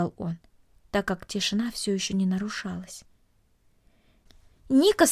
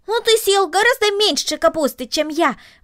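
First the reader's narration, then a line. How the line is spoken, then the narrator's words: Exclamation. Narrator (Russian): воскликнул Макс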